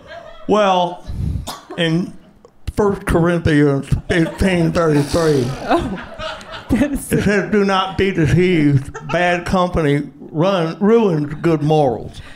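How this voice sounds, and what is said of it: Mumbled, toothless-sounding put-on Indiana accent. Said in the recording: “Are you missing your teeth right now? ... I'm missing my lips. It's almost the same thing. It's called the Indiana accent.”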